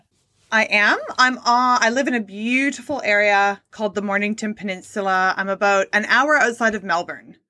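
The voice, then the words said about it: Hybrid Canadian-Australian accent. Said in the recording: “her hybrid Canadian-Australian accent”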